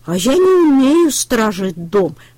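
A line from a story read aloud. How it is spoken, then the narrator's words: Sighing. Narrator (Russian): вздохнул трактор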